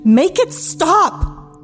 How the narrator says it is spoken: scream

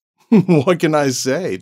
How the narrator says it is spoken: David laughed

